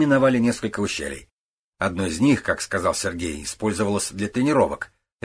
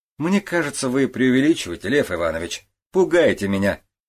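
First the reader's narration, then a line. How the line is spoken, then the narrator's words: Laughing. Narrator (Russian): рассмеялся Сергей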